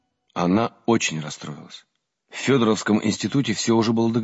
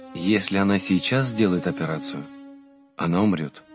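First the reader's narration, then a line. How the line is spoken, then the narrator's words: Sad priest speaking. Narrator (Russian): грустно сказал батюшка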